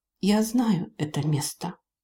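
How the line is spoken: Quiet female elf voice. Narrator (Russian): Эльфийка тихо произнесла

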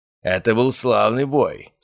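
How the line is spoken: Hoarse voice. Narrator (Russian): сказал он хрипло

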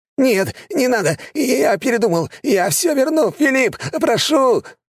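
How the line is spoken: Man wailing. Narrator (Russian): Начал вопить мужик

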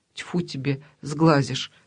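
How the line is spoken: Plain. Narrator (Russian): сказала бабушка

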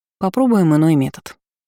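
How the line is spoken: Plain. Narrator (Russian): сказала в ответ

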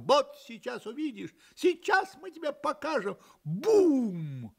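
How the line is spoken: Little roosters shouting from above. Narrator (Russian): Петушки кричали сверху

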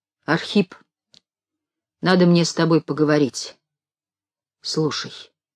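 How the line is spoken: Stern old man. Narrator (Russian): сказал строго старик

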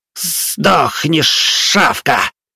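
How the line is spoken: Hissed. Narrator (Russian): Викар прошипел

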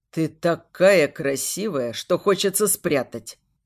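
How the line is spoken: Lowered husky voice. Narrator (Russian): Его голос понижается до хрипотцы

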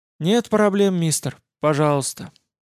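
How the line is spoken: Sad older woman. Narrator (Russian): грустным голосом молвила немолодая женщина

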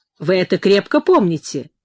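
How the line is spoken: Stern question. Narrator (Russian): строго спросил его следователь

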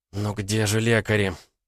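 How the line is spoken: Moaning, woman. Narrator (Russian): простонала она

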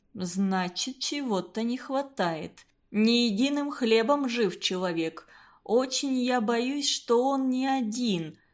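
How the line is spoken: Plain. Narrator (Russian): сказал Константин Семенович

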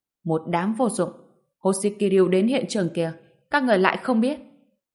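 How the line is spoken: Angry shout. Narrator (Vietnamese): giọng Đông Vương tức giận quát

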